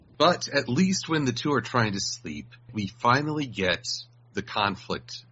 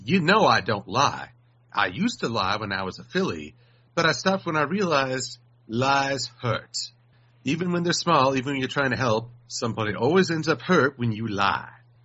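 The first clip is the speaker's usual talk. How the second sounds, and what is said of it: Put-on Southern accent. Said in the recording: “That is the best Southern accent I can do right now ... you already sound like you could be a Southern lawyer”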